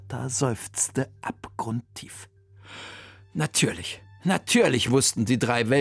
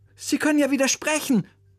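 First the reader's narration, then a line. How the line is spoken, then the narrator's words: Called out. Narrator (German): rief Oliver seinem Musiklehrer zu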